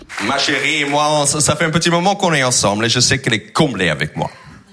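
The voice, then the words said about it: Non-native French accent. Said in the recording (French): “Vous allez entendre qu'il n'est pas français avec son accent.”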